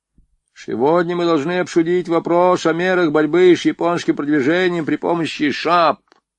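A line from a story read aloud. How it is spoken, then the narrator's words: Toothless mumble. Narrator (Russian): прошамкал Надеин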